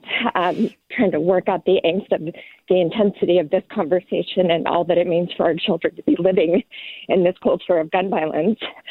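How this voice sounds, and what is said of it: Out of breath while speaking. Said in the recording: “I'm actually on a run, sorry, I'm out of breath”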